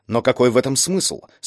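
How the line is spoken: Plain. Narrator (Russian): спросил Ли Танбо

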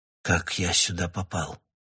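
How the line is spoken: Whispered. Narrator (Russian): прошептал я

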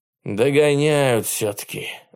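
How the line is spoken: Sigh. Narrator (Russian): вздохнул Садко

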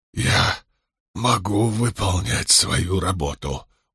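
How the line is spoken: Strained whisper. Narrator (Russian): ухитрился прошептать он

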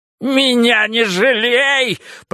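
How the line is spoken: Shrill squeal. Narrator (Russian): провизжал Фариш

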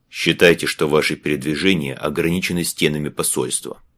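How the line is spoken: Gloomy tone. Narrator (Russian): мрачно проговорил Галени

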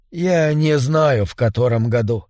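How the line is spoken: Tired old man. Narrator (Russian): устало сказал старик

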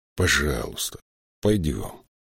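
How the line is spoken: Gentle. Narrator (Russian): мягко сказал Риммер

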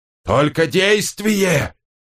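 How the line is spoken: Wheezing, heavy breathing. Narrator (Russian): захрипел Доффер, тяжело дыша

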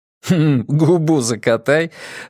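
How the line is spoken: Laughing. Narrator (Russian): рассмеялся он

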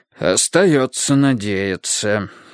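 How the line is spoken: Sigh. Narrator (Russian): вздохнул папа

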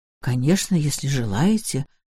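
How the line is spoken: Muttering. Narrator (Russian): пробормотал я

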